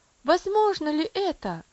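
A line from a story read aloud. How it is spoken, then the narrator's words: Exclaiming. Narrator (Russian): воскликнул он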